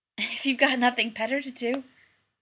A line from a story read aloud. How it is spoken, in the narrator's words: Rodney gasped